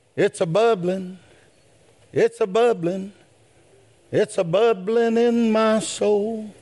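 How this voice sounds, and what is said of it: Singing and shouting loudly. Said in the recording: “Yeah, I'm singing. I'm shouting.”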